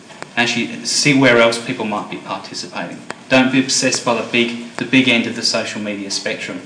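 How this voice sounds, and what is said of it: Slight English accent. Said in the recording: “maybe a slight Pommy accent, but I was born in the UK”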